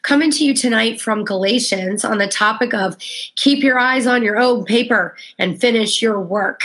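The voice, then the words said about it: Sick-sounding voice. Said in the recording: “apologize for my voice. I've had a cold all week, but finally we're feeling better.”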